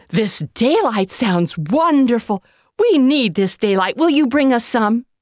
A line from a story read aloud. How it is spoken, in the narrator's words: cried the people